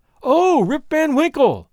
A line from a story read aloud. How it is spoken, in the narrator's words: exclaimed two or three